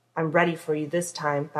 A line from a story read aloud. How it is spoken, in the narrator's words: Bobby said, his voice low